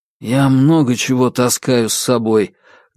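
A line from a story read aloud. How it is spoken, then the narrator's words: Muffled, unperturbed, through scarf. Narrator (Russian): глухо, но невозмутимо отозвался из-под шарфа Корсаков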